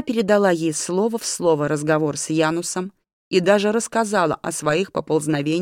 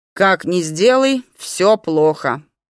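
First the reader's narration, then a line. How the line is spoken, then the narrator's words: Grumbling. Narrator (Russian): пробурчала Кейра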